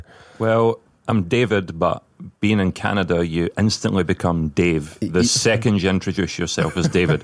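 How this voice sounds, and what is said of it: Scottish accent. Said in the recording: “Scottish? Are you from Scotland?”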